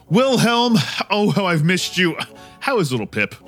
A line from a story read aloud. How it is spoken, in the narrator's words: Howie exclaims